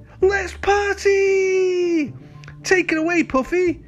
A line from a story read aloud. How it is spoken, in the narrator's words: he cried